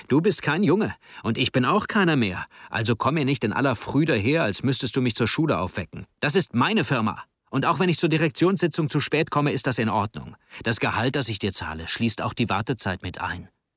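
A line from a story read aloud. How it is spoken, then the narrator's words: Angry retort. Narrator (German): entgegnete Jovi wütend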